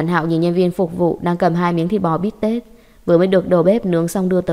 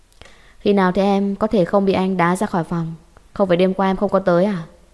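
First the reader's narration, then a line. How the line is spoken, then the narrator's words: Cold voice. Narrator (Vietnamese): Dạ Thiên Thiên lạnh lùng nói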